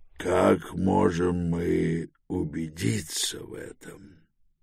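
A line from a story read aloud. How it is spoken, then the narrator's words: Gentle, reluctantly pitying question. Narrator (Russian): мягко спросил первый оратор, вынужденный против своей воли пожалеть Гендибаля после предыдущей реплики Долорми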